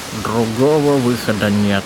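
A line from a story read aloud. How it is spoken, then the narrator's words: Gloomy. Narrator (Russian): мрачно ответил вакриец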